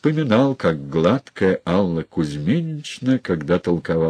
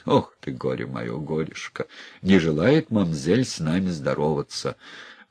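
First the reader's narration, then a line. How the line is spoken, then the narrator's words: Laughing to himself. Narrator (Russian): посмеялся сам с собой Ефим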